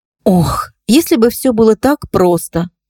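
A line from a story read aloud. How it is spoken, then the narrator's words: Sigh. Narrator (Russian): вздохнула Настя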